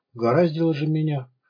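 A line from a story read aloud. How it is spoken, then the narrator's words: Sad inner thought. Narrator (Russian): подумал Ваня грустно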